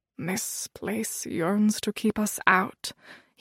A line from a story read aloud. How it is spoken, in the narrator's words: he murmured